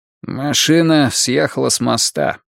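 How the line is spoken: Nasal hoarse voice. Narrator (Russian): пояснил Нолин своим гнусавым хриплым голосом

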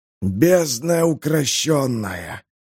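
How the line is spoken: Relieved sigh. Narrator (Russian): облегченно вздохнул король

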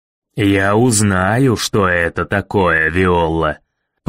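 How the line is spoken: Growled. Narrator (Russian): прорычал мэр

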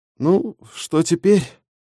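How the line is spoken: Tired question. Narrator (Russian): устало спросила Марта

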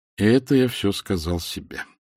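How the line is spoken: Sighing. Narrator (Russian): вздохнул Люса

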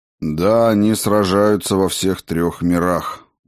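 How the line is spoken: Gloomy. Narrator (Russian): мрачно сказал познавший тьму

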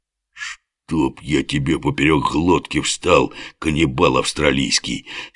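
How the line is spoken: Strained, hoarse lion's rasp. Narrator (Russian): с чувством прохрипел лев, все еще силясь встать

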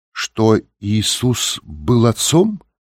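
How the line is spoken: Uncertain question. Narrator (Russian): неуверенно спросила Софи

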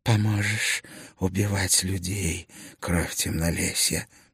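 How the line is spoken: Hoarse wheeze. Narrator (Russian): просипела она

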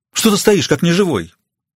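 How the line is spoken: Exclaiming. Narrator (Russian): воскликнула она

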